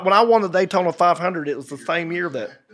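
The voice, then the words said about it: Imitates another person's accent. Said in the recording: “He's got a good accent. Yeah. My favorite accent though in NASCAR is probably Michael Waltrip ... kind of like this ... Sounds like Tiger King”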